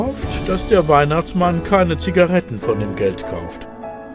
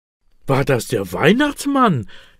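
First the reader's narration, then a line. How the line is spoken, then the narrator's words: Excited question. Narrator (German): will Elias aufgeregt wissen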